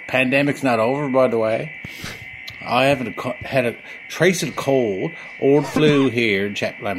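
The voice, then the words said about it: Newfoundland accent, sounds Irish. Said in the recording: “I'm not playing up the Newfoundland accent. I actually do speak like this... He sounded Irish to begin with... if you're from Newfoundland, it's pretty close”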